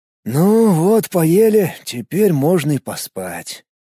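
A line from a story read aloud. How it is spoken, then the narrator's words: Lazy. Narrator (Russian): лениво проговорил он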